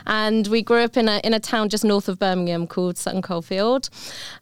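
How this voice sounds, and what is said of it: British accent. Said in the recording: “I'm from the UK, as you might be able to tell from my accent.”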